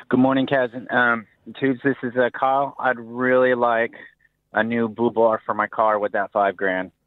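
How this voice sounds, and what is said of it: Regional accent. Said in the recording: “He's got an accent. He's from Kingston.”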